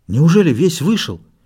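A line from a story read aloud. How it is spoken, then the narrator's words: Frightened question. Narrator (Russian): испуганно спросил Билл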